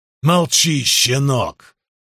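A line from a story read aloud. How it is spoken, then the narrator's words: Growled. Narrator (Russian): прорычал Фемистокл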